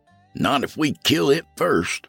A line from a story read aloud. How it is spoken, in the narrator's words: I muttered